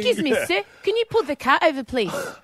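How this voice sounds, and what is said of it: Bad put-on New Zealand accent. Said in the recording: “Worst New Zealand accent ever.”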